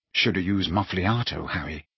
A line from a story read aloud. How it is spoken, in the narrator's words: said Ron, adding quietly